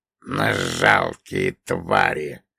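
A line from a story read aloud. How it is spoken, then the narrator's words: Grumbling. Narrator (Russian): проворчал перевозчик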